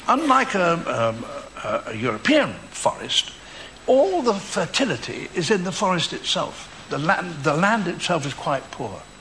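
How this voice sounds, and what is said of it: Very posh Leicestershire English accent. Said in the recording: “posh ... that's a Leicestershire accent. That's a very posh Leicestershire accent.”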